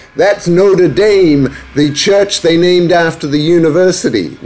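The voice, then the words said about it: Bad put-on American accent. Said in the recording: “that's a bad American accent”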